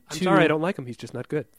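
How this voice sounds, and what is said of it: Imitation of another speaker. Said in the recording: “That was a nice imitation of me.”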